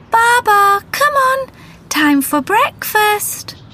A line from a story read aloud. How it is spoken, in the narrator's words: She shouted again